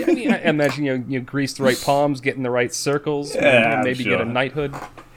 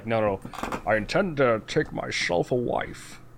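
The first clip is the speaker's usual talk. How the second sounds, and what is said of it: Imitates a Sean Connery accent. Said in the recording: “Sean Connery accents. ... It's a great accent”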